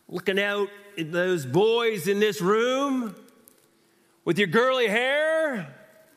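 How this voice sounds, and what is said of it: Put-on southern preacher accent. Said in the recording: “they usually have a southern accent”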